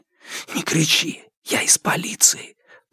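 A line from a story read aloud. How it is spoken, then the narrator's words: Whisper in the ear. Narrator (Russian): прошептал он ей на ухо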